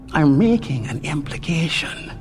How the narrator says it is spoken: Jane said, keeping his voice just about the level of a whisper

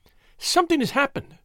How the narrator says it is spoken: she cried

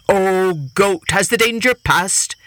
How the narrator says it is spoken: the tiger called out

